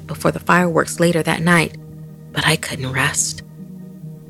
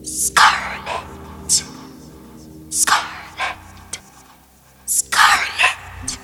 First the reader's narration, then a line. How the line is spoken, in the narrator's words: was whispered over and over